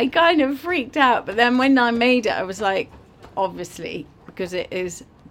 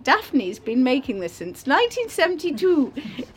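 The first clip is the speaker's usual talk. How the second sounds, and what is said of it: Put-on New Zealand accent. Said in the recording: “in a New Zealand accent, obviously.”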